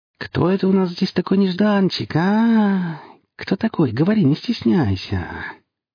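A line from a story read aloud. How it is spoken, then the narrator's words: Drawn-out singsong. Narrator (Russian): тянул он нараспев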